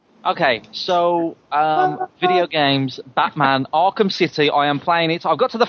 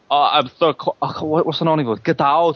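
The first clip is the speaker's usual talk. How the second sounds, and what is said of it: Imitates a famous action star's voice. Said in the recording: “I'll do it in an Arnie voice”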